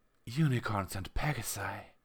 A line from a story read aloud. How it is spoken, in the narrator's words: breathed the junior officer